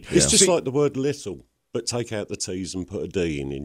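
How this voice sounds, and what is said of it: British accent. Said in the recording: “Such a lovely accent ... I like the British guy”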